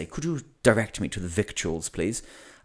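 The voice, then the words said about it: Exaggerated posh English accent. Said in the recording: “put on a super English accent”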